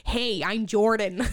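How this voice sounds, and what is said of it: Imitates another person's voice. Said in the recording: “the best impression I've ever heard of Jordan ... it's very accurate ... That's how he talks”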